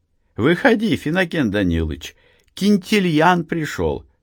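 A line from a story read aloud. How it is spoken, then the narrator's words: Cheered-up voice. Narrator (Russian): повеселевшим голосом сказала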